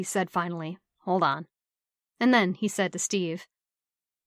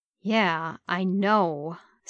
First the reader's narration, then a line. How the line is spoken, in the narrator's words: Steve said irritably